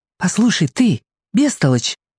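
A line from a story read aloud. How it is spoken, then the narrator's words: Whispered. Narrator (Russian): прошептала Аделина мне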